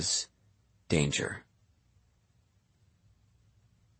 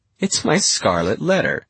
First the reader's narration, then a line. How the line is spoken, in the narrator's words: she says, laughing